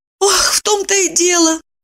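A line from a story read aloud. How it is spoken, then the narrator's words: Sigh. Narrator (Russian): вздохнула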